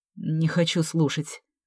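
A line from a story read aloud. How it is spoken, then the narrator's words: Muttering. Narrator (Russian): буркнул Саша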